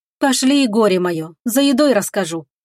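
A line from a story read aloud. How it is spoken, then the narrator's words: Wry snort. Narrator (Russian): хмыкнула Агата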